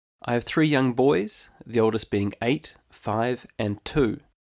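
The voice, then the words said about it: New Zealand English accent. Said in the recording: “my accent isn't Irish. I'm actually originally from New Zealand”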